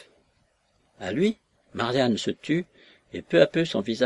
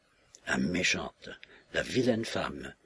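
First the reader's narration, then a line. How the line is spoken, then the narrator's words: Slow murmur. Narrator (French): murmura-t-elle lentement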